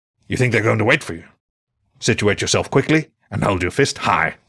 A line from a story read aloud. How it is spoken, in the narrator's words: he growled